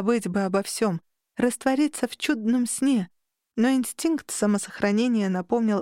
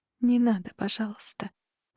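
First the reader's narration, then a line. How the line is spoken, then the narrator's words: Tearful whisper. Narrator (Russian): прошептала, едва сдерживая неожиданно навернувшиеся на глаза слезы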